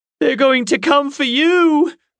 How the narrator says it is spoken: Horace wailed

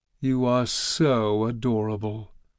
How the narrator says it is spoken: the goddess purred

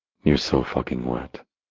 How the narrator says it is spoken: she purred

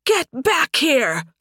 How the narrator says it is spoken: Sunstorm screamed from the top of the tower

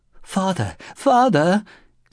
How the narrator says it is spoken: Kichijiro was again pleading in the darkness

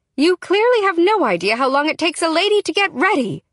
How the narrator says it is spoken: I shout after him

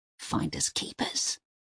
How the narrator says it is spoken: he spat at Uwe

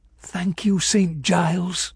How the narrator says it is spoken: I whispered

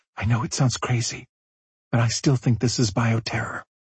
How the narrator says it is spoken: Her voice barely above a whisper, she said

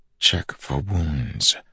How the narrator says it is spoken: his father's teachings whispered from the back of his mind

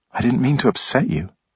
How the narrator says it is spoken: she said gently

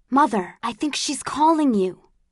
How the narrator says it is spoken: I whispered

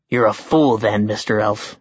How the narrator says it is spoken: he growled

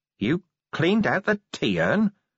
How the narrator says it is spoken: said Vimes in a hollow voice

